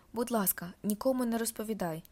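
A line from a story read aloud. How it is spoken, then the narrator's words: Pleading whisper. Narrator (Ukrainian): благає пошепки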